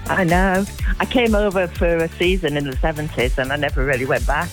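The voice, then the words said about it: Hull English accent. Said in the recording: “That accent doesn't sound like it's from Jersey, though. ... I'm from Hull.”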